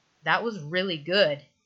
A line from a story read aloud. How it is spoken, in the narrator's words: Derek says